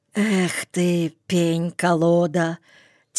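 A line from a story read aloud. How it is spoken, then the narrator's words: Quiet swearing. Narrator (Russian): тихонько выругался Стась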